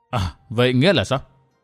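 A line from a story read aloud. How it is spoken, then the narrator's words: Smiling. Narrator (Vietnamese): mỉm cười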